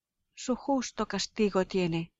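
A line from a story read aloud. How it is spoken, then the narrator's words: Exclaiming. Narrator (Spanish): exclama Laertes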